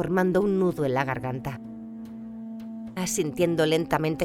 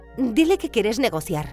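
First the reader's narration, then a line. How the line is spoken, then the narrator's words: Shouted back. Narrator (Spanish): gritó de vuelta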